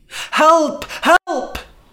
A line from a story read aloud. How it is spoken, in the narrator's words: cried